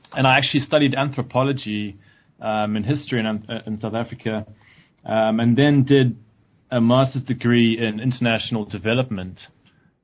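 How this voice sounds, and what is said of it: South African accent. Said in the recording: “I came from South Africa, which you might tell from my accent.”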